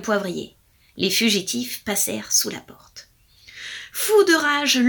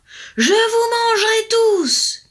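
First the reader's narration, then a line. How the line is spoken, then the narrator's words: Thundering. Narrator (French): tonnait-il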